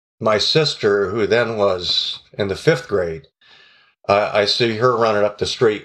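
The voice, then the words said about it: Choked-up, emotional voice. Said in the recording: “you can tell I get a little choked up on that one”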